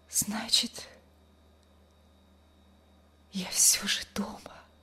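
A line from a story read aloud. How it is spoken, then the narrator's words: Weak whisper. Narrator (Russian): прошептала она слабым голосом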